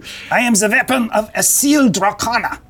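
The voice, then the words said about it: Character voice with an accent. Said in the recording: “Oh, you got an accent.”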